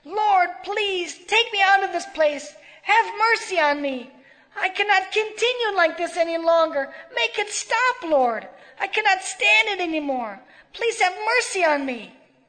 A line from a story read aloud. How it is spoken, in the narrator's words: She shouted